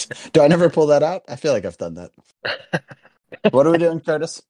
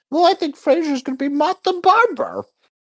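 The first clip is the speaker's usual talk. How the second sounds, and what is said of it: Imitates another person's voice. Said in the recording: “Was that your Curtis impression? ... That's my Kurt impression. ... it's pretty accurate”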